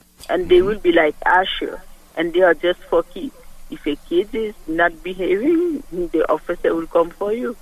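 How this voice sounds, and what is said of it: Haitian French accent. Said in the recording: “What's your accent? I like your accent. What is it? ... I'm from Haiti. I speak French”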